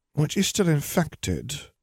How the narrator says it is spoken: Poppy murmured

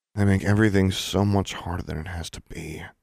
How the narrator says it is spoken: Alexandra muttered

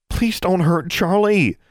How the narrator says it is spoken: she begged, so earnestly

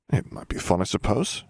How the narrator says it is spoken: Harry murmured

